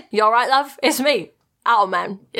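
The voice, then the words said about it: Put-on accent. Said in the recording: “the accent I did in this episode”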